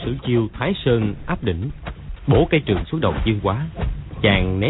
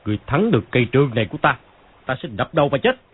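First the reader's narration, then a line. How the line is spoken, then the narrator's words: Angry. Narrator (Vietnamese): Phàn Nhất Ông tức giận nói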